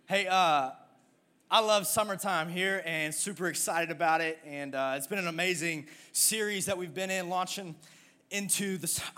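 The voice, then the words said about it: Speaking out of breath. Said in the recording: “I'm out of breath because I ran to get my Bible because I forgot it. So just give me, let me just catch my breath for a second.”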